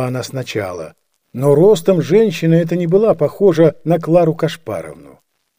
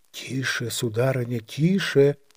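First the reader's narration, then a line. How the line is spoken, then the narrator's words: Under her breath. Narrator (Russian): отвечала она вполголоса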